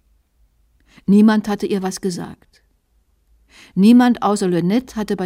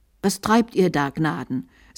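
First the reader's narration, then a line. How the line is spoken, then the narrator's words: Plain. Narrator (German): sagte Lynette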